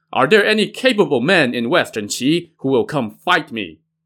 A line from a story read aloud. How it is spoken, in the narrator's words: Zhu Tianlin shouted